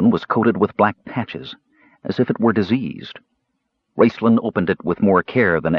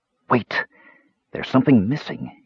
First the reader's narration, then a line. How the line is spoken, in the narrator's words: he whispered, catching his error